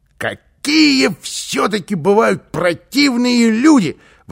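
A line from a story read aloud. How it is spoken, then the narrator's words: Exclamation. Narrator (Russian): воскликнул он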